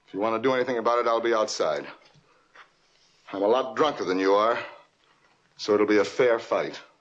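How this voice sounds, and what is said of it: Mid-Atlantic accent. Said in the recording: “It's very mid-Atlantic accent, which was big in the 1950s acting scene. ... he just has such a distinctive voice.”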